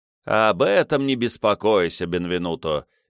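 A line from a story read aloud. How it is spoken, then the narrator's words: Cheerful reply. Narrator (Russian): весело отвечал герцог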